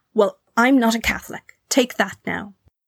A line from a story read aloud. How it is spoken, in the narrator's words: Mamie, now no longer able to contain herself, spat out